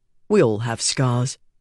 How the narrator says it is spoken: he said

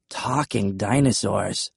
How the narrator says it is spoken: I mumbled

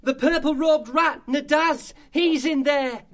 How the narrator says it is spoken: Tim Church Mouse cried out

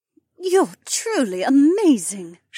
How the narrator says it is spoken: moaned

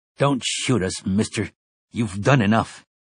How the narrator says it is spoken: said bitterly

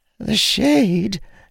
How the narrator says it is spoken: Shara practically squeaked out

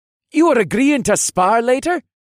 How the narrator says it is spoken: Asher continued the conversation in a cheerful voice

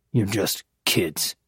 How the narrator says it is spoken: muttered

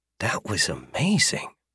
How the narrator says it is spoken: Arthur muttered

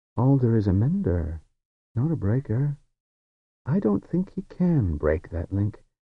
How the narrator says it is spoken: He said in his quiet, easy voice

